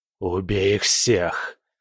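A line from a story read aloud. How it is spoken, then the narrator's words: Predator's growl. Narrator (Russian): прорычал хищник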